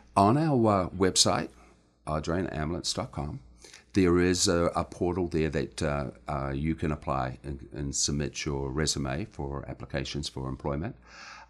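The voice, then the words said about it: New Zealand accent. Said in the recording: “a bit of a nice accent ... I was originally born in New Zealand, and I grew up there”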